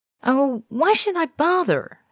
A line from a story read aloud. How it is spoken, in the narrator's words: shrieks